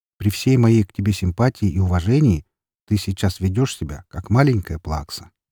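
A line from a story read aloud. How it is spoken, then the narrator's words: Forced calm. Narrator (Russian): как можно более спокойно произнес я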